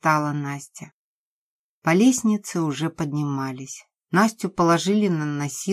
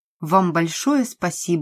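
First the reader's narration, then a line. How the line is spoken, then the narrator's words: Plain. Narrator (Russian): сказал Толя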